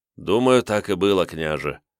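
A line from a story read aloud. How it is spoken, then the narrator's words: Weary agreement. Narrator (Russian): устало согласился Степан Иванович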